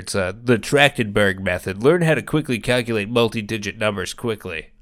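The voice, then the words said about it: Stereotypical nerd voice. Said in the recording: “You have that voice on lock. That is like the perfect nerd voice I've ever heard. ... Very good nerd voice.”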